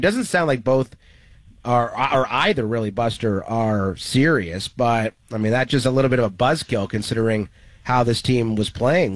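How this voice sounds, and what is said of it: Sick, unwell-sounding voice. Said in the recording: “you're playing hurt. I can hear it in your voice”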